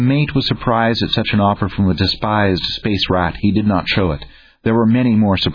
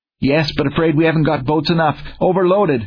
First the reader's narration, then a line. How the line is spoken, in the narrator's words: was the gasped reply